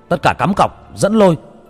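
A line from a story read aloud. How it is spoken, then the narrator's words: Shouted. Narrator (Vietnamese): Người ngồi ở giữa hét lên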